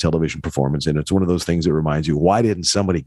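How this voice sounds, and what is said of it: Usual voice. Nothing is said of it.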